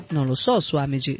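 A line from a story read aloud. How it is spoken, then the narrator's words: Plain. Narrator (Italian): lei rispose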